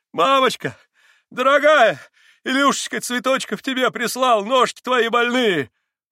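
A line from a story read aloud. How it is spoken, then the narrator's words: Shout. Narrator (Russian): Прокричал он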